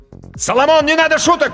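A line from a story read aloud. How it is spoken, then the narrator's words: Shouted. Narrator (Russian): крикнул Данька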